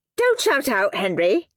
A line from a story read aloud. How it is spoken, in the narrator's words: snapped Miss Battleaxe